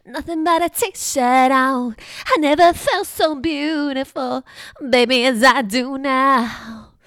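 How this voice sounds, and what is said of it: Breathy sung imitation of a pop singer. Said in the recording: “do a little Jessica Simpson impression ... You just gotta breathe a lot. I think that's the key if you wanna do a Jessica Simpson impression”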